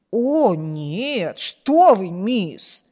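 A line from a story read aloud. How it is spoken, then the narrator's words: Slightly surprised exclamation. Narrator (Russian): воскликнула Сьюзен, слегка удивленная этим вопросом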